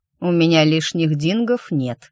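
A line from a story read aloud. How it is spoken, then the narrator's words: Snorted. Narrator (Russian): фыркнул Роне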